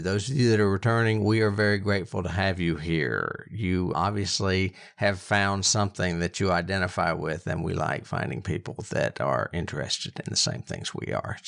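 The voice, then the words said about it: PBS announcer-style voice, less bombastic. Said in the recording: “do my PBS voice a little bit less bombastic”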